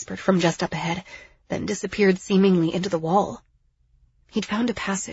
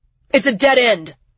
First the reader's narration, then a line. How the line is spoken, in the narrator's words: Jax yelled